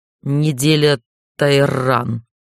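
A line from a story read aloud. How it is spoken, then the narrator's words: Growling. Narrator (Russian): Не сказал, а скорее прорычал он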